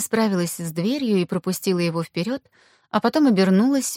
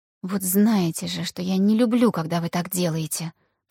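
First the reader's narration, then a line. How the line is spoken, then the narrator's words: Whisper. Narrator (Russian): прошептала Аня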